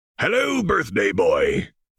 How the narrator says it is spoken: bellowed Hagrid

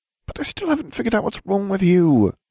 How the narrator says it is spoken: she whined

